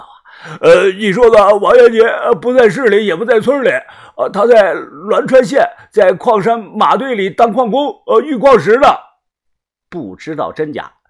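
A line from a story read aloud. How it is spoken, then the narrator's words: Doubtful, panting. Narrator (Chinese): 杨老幺是将信将疑，大喘着口气说道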